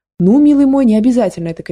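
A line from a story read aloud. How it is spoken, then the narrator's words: Shouting. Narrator (Russian): кричала она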